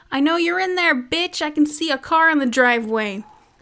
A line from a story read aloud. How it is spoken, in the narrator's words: As he's trying to open the door, I hear him yell